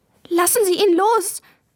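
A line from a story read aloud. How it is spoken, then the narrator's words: Tearful call. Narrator (German): rief Maya, und in ihre Augen kamen Tränen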